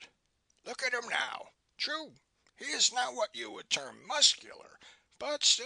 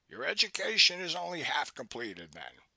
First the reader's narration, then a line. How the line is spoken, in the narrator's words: he said dryly